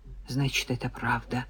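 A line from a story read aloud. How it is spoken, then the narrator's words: Mumbled. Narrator (Russian): пробормотала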